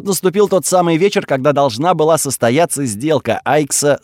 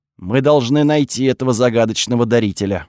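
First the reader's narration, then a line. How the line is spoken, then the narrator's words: Plain. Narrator (Russian): сказал Кириус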